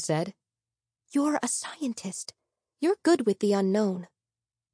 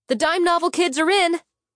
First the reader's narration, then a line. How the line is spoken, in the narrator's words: I shouted